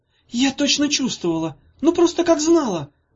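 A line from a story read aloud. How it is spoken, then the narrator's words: Tearful exclamation. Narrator (Russian): воскликнула Ирка со слезами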